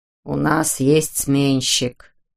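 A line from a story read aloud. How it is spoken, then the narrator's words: Grumbled. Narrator (Russian): проворчал Дипок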